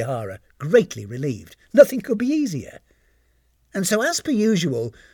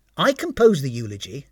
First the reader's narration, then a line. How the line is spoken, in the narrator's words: said Tanisan